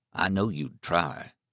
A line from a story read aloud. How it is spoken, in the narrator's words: Stark said gravely